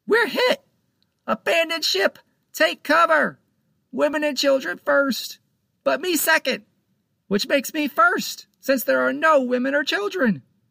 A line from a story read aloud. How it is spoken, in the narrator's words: Panto screamed